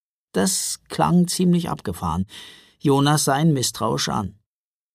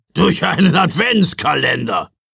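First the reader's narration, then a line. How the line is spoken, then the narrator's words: Blustering rumble. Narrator (German): polterte Knecht Ruprecht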